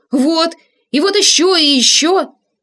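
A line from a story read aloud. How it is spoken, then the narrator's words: Spoken loudly. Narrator (Russian): громко говорили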